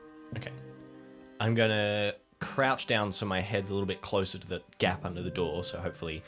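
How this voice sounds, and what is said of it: Usual voice. Nothing is said of it.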